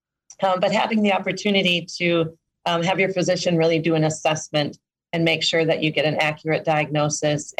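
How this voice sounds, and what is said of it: Voice going hoarse. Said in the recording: “losing my voice a little bit”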